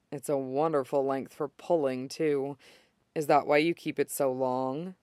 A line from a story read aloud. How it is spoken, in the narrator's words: he leans very close and adds in a lower voice